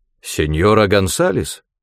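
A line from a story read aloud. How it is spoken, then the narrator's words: Low, husky voice. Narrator (Russian): Голос звонившего был низким и хрипловатым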